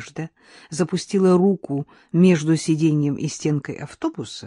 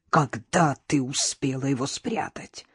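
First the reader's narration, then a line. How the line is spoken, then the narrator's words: Hateful hiss. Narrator (Russian): прошипела Нора с ненавистью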